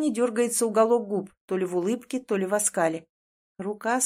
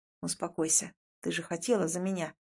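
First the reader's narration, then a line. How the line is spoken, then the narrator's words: Quiet. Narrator (Russian): говорит тихо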